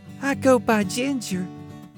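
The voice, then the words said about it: Purring southern accent. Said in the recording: “She purred in an angelic southern accent.”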